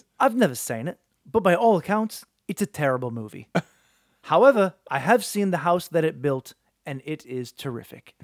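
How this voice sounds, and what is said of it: Michael Caine impression. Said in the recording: “a quote from Michael Caine... Sir Michael Caine... do it in the accent”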